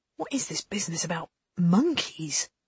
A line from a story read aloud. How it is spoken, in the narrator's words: Lane was murmuring